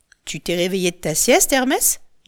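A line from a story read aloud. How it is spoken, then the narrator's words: Plain. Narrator (French): dit la chouette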